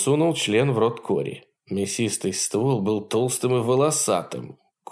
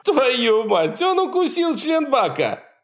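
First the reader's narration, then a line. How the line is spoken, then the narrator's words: Group shouting. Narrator (Russian): закричали они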